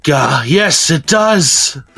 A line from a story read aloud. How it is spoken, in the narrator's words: Iggy gasped